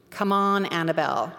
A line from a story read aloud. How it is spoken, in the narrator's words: I said